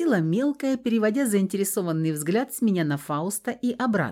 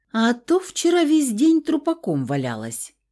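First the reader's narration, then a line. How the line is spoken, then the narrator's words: Snorting, young girl. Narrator (Russian): хмыкнула мелкая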